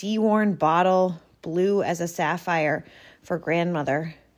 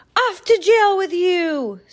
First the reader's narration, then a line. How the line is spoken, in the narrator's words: Cyrus screeched